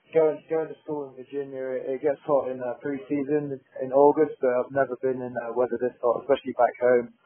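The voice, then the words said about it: English accent. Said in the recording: “there's no fool in your accent. ... living in England”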